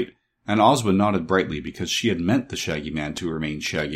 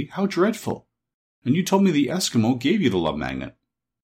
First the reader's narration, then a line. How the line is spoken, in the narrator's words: cried Dorothy